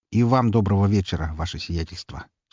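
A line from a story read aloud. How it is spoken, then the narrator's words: Dry greeting. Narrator (Russian): сухо поприветствовал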